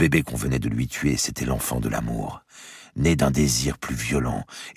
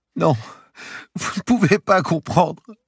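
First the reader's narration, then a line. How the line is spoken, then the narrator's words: Moaning woman. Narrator (French): gémissait-elle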